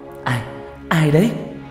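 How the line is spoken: Trembling question. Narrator (Vietnamese): Tôi run run hỏi

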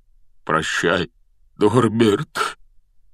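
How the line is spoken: Breaking, strained voice. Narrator (Russian): Срывающимся голосом выдавил из себя Хагрид

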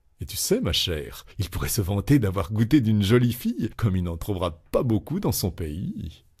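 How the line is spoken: Cheerful, familiar. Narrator (French): soudain, la tutoyant gaiement

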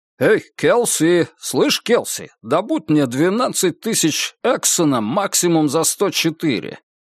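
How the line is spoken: Suddenly too-loud young man. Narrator (Russian): Неожиданно чересчур громко проговорил молодой человек

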